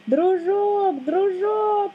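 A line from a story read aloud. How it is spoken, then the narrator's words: Group shouting. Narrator (Russian): закричали мы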